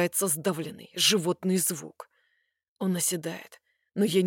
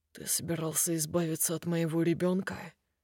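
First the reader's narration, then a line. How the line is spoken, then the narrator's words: Falsely calm question. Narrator (Russian): Спрашиваю фальшиво спокойно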